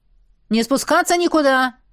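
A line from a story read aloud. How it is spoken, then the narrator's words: Shouted. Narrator (Russian): выкрикнул Идрис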